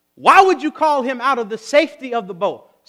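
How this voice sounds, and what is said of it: Raised preacher-style voice. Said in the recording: “my preacher voice just came on right there. Let me turn it back down.”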